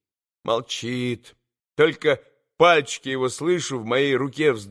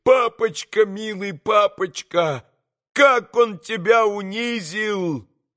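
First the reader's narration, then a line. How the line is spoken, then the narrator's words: Sobbing. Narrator (Russian): Зарыдал тут и яс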